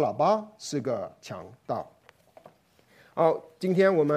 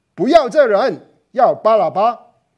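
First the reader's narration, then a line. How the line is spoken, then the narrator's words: Crowd shouting. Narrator (Chinese): 他们喊着说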